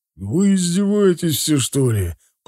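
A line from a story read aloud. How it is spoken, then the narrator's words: Father groaning. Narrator (Russian): простонал отец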